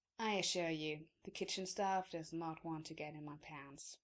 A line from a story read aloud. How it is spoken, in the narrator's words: he says flatly